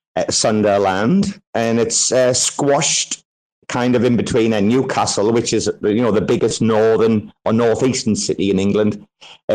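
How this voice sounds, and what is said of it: Northeast English accent, slightly Irish-sounding. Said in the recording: “a small city called Sunderland ... accent, bro, a lot of people think I'm Irish ... did you think there was a tinge of Irish there or not? A lot of people in Thailand think I'm Irish.”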